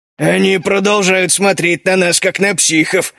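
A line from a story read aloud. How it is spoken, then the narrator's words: Smirking. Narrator (Russian): усмехнулся Клык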